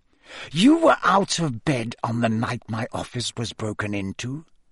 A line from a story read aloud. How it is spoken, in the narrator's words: Snape hissed